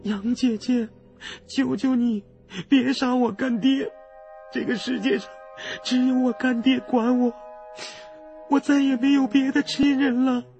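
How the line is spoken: Terrified pleading. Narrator (Chinese): 阿香脸都吓白了，连哭都哭不出来了，哀求道

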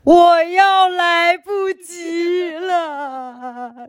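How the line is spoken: Crying. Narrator (Chinese): 又哭了，说

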